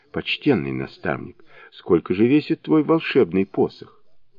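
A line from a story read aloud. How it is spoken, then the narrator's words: Timid question, young prince. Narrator (Russian): Второй княжич робко спросил Шассена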